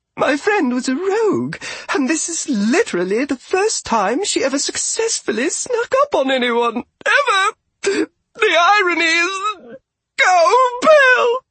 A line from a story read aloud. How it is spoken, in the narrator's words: she cackled, her mad guffaws echoing over the swamp